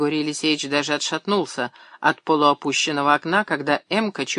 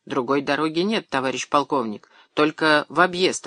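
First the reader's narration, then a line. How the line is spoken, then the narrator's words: Plain. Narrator (Russian): ответил шофер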